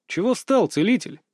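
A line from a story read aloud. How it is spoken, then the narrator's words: Calm question. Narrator (Russian): спокойно поинтересовался я у Рудного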